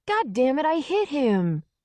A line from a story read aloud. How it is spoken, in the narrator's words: the boy screamed